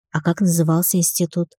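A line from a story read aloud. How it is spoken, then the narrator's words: Timid question. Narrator (Russian): робко спросила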